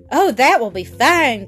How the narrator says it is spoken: cried the goat

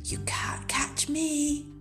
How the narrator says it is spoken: whispered

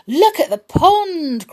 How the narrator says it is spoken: cried Flower

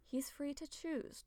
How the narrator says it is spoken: Tall Poppy murmurs

